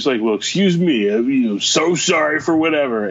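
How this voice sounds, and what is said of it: Sarcastic mocking imitation of another. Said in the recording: “I'm doing the voice because I'm trying to convey that there was a certain amount of smell you sarcasm”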